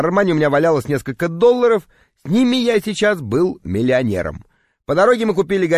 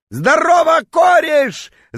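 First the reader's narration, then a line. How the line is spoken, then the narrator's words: Drunken yelling. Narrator (Russian): заорал он дурным пьяным голосом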